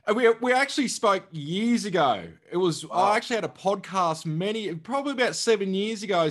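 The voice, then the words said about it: Australian accent. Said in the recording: “Good to hear the Aussie accent.”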